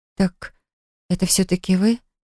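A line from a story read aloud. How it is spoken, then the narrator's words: Muttering. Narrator (Russian): пробормотала я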